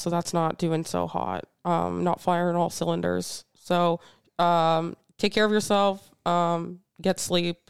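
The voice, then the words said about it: Voice of someone with a cold. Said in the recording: “I have a cold”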